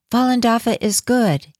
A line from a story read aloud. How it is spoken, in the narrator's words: He yelled